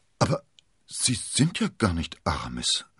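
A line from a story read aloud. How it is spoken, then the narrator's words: Stuttering. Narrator (German): stotterte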